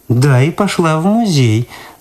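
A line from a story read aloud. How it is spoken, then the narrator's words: Mocking repetition. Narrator (Russian): насмешливо повторила Люда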